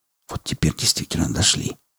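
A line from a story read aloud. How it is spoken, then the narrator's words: Whispered. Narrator (Russian): шепнул Малдер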